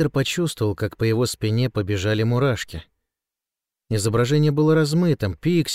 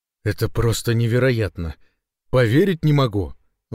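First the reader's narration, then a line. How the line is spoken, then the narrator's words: Exclamation. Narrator (Russian): воскликнул Ильярена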